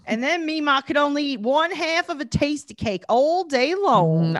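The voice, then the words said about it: Put-on Southern accent, fairly good. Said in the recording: “my Southern accent ... That was pretty good. You're getting better at it.”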